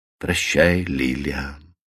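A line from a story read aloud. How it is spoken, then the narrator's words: Soft and friendly. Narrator (Russian): мягко и дружелюбно обратился он к жене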